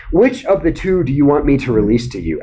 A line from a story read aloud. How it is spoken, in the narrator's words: asked the governor